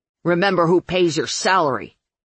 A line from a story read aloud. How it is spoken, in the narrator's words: Curly snapped